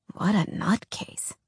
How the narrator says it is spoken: Jordan mumbled, loud enough for only Alex to hear

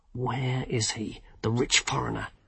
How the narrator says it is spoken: hissed the wizard

